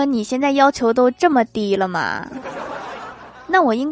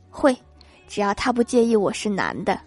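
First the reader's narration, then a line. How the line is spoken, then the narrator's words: Low voice. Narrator (Chinese): 又一个声音低声说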